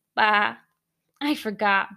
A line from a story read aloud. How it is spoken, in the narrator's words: Bingo sighed